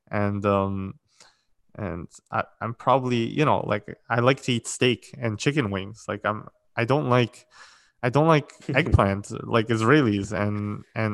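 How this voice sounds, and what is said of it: Pretty American accent. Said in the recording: “I probably have a little bit of an accent, like not a little bit. I have a pretty American accent”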